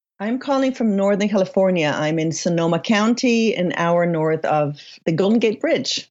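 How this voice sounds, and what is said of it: Slight mixed foreign accent. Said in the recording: “I hear a slight accent ... So it's kind of a mixture of accents”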